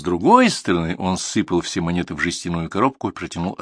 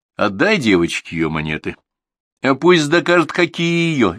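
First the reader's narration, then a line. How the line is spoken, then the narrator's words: Cheerful. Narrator (Russian): весело сказал Данила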